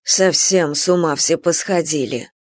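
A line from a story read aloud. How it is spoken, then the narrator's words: Grumbling mutter. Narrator (Russian): буркнула Анфиса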